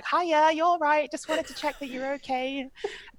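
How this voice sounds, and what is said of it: Put-on Warrington accent. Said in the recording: “Warrington accent.”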